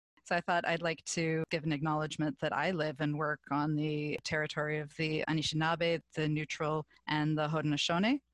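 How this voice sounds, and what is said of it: Canadian English accent. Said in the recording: “you can probably tell from my accent, I am not Australian. ... I am Canadian”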